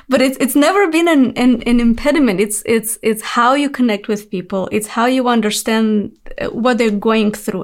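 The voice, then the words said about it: Speaks with an accent. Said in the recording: “I have an accent. I know I'll probably never get rid of my accent”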